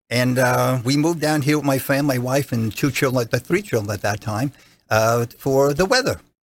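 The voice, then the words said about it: Regional New Jersey accent. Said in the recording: “New Jersey practicing, as you can hear by my my regional accent”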